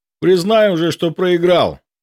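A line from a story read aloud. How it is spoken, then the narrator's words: Shout. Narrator (Russian): крикнул я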